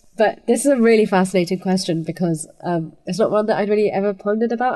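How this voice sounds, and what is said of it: Congested voice from a cold. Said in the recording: “reason my voice is the way that it is. I'm very sorry, but I have a bit of a cold,”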